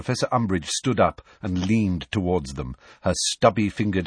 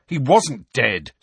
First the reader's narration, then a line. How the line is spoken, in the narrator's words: said Harry angrily